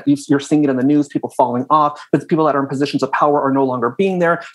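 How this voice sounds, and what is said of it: Talking very fast. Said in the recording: “I know I'm talking really fast”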